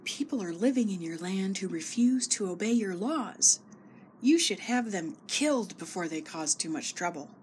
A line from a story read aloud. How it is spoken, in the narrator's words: Haman whispered